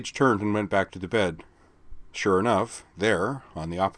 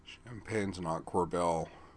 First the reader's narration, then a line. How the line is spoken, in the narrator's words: Jubilee mumbled